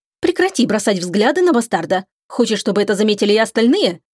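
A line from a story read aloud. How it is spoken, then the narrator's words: Angry rebuke. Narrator (Russian): Сердито осадила ее Мередит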